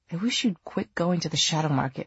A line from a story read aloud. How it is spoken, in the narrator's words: Julian muttered